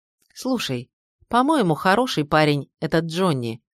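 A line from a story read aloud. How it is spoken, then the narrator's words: Plain. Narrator (Russian): сказала Зоя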